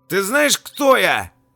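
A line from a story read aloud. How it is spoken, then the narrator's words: Loud shout, colonel's aide. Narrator (Russian): Помощник полковника громко прокричал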